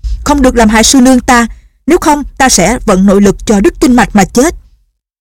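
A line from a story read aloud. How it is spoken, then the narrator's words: Urgent loud shout. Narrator (Vietnamese): Lệnh Hồ Xuân thấy sư nương lâm vào tình thế nguy hiểm, hắn vội quát to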